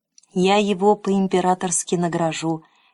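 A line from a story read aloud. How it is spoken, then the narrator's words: Quiet promise. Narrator (Russian): тихо пообещал император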